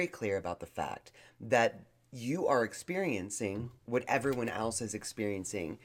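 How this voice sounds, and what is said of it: Usual voice. Nothing is said of it.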